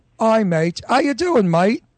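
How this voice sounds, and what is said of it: Put-on Australian-sounding accent. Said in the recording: “That is definitely more Australian”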